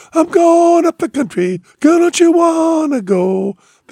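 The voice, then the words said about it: Sung broken falsetto imitation. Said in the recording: “The broken falsetto ... he's doing an impersonation of Son House, the old blues guy”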